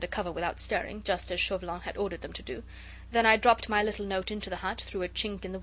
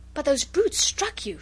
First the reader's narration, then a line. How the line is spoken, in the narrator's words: she gasped in horror, at the bare recollection of their fearful indignity